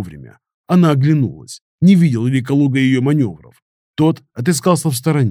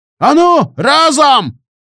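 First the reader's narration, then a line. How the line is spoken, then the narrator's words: Sudden booming yell. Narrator (Russian): Неожиданно зычным голосом заорал Калуга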